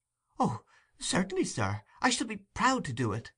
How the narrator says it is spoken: exclaimed Oliver, greatly delighted with the commission

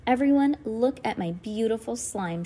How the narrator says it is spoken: cried

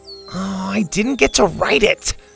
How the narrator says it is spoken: Colin moaned

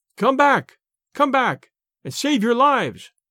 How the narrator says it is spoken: they cried

